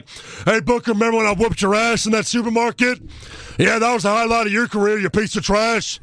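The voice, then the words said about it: Imitates another person's voice. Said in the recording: “done my Stone Cold impersonation”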